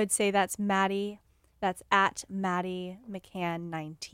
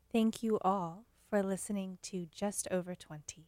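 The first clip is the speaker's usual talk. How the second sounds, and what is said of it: Old Hollywood, beautiful relaxing voice. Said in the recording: “in your old Hollywood, beautiful, relaxing voice”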